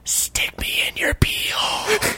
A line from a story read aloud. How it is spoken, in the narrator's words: whispered the topaz inside Dale's mind